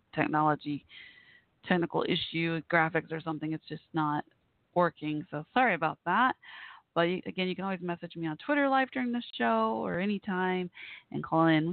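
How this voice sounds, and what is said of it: Hoarse, fading voice. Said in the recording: “I'm losing my voice. ... All of a sudden, I started losing my voice.”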